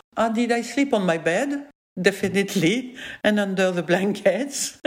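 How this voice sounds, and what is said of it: French accent in English. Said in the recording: “I'm French ... So that's my accent.”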